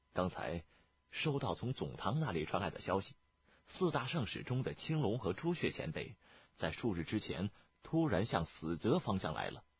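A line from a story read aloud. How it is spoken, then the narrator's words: Low voice. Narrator (Chinese): 燕回 压低了声音说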